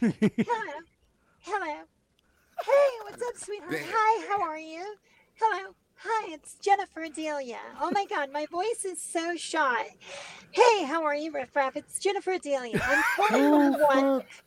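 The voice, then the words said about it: Man putting on a female voice. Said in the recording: “I was in my female voice”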